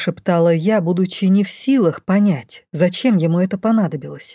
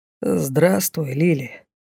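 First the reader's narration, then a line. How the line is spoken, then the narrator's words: Quiet voice. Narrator (Russian): раздалось негромко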